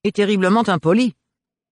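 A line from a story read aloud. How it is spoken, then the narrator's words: Stern interjection. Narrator (French): intervint Domiti d'un ton sévère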